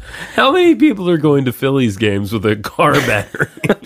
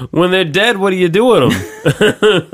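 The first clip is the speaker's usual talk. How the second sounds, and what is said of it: Attempted Philadelphia accent. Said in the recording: “I don't know how to do a Philly accent. ... I mean, it's close enough.”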